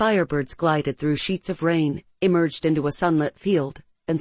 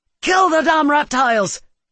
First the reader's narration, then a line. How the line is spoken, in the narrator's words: she shouted